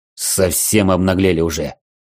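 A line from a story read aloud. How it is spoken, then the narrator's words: Angry growl, bearded warrior. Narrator (Russian): зло рыкнул бородатый воин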